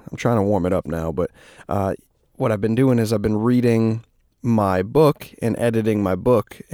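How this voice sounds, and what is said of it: Raspy, strained voice. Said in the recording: “my voice is a little raspy ... I'm like losing my voice”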